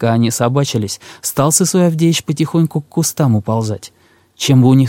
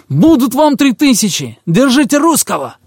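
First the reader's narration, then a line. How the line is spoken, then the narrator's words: Sudden shout from noseless brute. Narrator (Russian): Вдруг изверг без носа как крикнет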